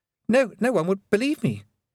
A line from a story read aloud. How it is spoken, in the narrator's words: he stammered